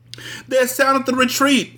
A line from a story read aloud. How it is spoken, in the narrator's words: the brave queen cried